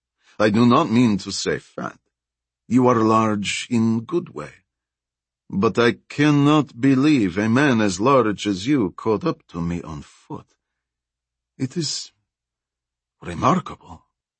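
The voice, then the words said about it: Strong Russian accent. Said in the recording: “her Russian accent stronger than it had been earlier”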